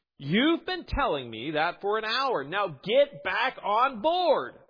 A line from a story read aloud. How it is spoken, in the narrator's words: the Coast Guard official shouted